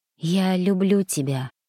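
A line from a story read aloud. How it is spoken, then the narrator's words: Quiet. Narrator (Russian): произношу тихо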